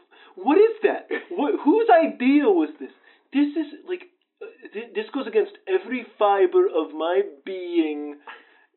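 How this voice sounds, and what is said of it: Upset, agitated voice. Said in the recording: “You sound so upset.”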